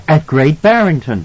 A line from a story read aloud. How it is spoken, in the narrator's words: Wendy cried